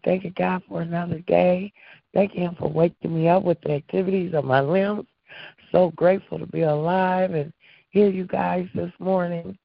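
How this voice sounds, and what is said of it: Hoarse, laryngitic voice. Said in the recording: “My voice is still a little laryngitis”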